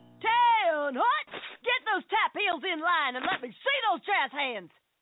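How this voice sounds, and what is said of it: Drill instructor character voice. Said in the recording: “my impression of a drill instructor directing a musical”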